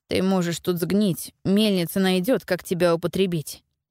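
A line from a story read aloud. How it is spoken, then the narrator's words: Nearly calm, after pause. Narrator (Russian): почти спокойно сказал Пауль после небольшой паузы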